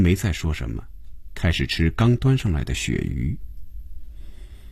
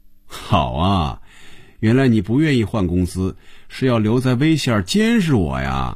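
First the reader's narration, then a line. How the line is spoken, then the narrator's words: Teasing laugh. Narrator (Chinese): 红军笑了，逗菲比说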